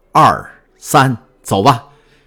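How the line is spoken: Two men shouting together. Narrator (Chinese): 两个掘墓人一起喊道

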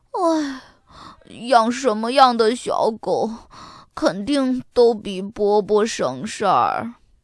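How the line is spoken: Weary sigh. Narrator (Chinese): 要做的事儿太多了，亚瑟叹口气说

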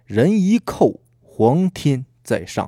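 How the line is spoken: Slow deliberate speech. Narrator (Chinese): 过了良久，才缓缓地说道

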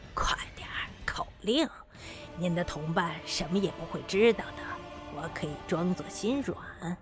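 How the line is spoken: Low voice. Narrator (Chinese): 低声说

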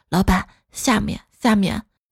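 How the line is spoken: Quiet voice. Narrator (Chinese): 小声说

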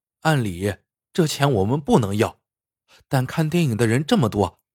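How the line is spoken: Sighing older sister. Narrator (Chinese): 姐姐 叹了口气说

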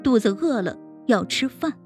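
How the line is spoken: Child's mumble. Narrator (Chinese): 笑笑 嘴里嘟囔着

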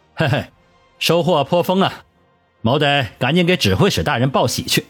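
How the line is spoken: Laughing. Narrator (Chinese): 李烈笑道

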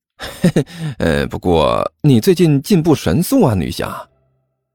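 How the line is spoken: Giggling. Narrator (Chinese): 甘球笑嘻嘻的说道

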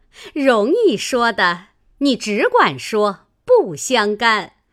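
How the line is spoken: Group laughing. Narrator (Chinese): 众人都笑道

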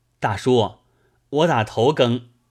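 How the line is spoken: Calling out. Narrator (Chinese): 三官向前叫

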